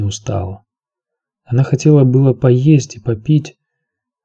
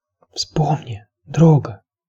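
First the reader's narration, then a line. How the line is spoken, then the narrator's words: Whisper. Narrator (Russian): прошептала она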